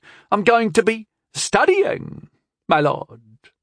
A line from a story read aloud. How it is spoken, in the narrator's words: Alwyn said sharply